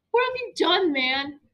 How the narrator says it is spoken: Somebody squealed across the restaurant

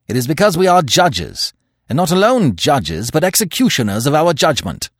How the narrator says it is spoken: said Manfred harshly

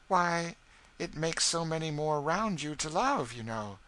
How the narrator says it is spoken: said Eva, looking up earnestly

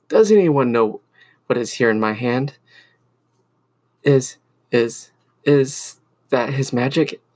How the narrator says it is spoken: asked a young mage in a cracked voice

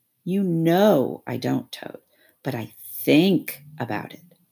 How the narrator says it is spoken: he added pathetically in a lower tone

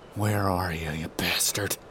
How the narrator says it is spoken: I mutter

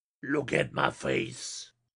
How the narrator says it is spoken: snarled with dangerous earnestness

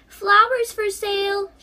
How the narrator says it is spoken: she cried

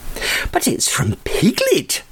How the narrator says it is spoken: cried Christopher Robin when he read it

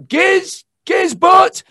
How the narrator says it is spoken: He shouted through 1,000,000 watts

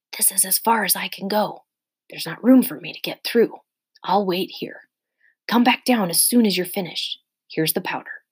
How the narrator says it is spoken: Justin whispered

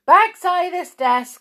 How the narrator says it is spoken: squealed Ruth

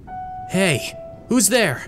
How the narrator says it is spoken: He called out

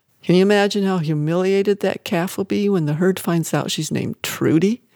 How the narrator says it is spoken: Manuel laughed

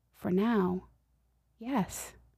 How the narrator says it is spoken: Gently, God spoke to my heart and answered

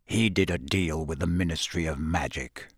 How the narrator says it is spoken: said Sirius bitterly

